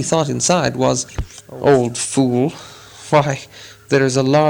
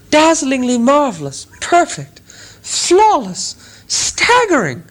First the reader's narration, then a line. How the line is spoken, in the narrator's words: exclaimed Bilbo aloud